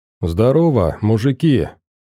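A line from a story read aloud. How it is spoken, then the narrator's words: Forced cheerful greeting. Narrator (Russian): нарочито радостно приветствовал тот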